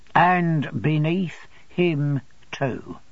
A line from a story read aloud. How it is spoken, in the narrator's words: pursued Uriah very distinctly, and in a meditative tone of voice